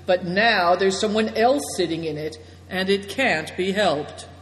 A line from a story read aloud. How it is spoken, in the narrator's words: said Big Tiger dryly